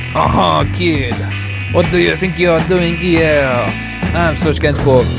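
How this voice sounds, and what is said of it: Broad stereotypical French accent. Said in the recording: “such broad and stereotypical French accents”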